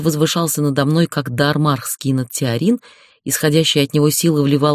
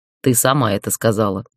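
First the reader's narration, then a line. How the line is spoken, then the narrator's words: Snorting chuckle. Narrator (Russian): хмыкнул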